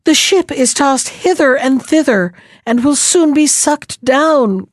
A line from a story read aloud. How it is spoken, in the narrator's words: cried the crew again